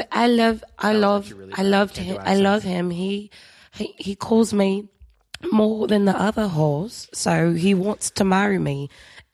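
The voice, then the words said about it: Put-on British accent drifting Australian. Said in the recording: “Actually, we're British. ... this went from British to Australian really fast.”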